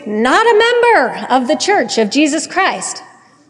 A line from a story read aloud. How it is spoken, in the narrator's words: screamed